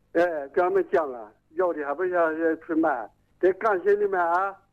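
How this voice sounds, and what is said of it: Strong hard-to-understand regional accent. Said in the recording (Chinese): “我听你口音，您是哪里人呢？……你这个口音很不好懂啊！……方言”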